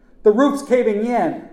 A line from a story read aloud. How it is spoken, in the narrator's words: I screamed